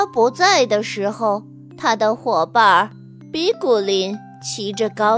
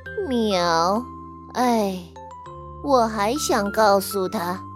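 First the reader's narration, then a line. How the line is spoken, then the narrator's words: Sighing. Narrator (Chinese): 猫咪巴嘎叹息道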